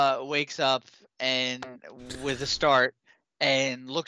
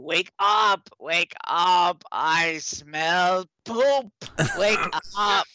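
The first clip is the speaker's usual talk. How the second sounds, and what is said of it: Rough goblin character voice. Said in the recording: “the rough goblin voice”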